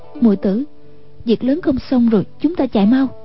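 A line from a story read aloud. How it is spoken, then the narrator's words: Lowered voice. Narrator (Vietnamese): Y lại hạ giọng nói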